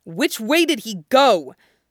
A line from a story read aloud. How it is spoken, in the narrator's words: Wu Fei took a deep breath to shout out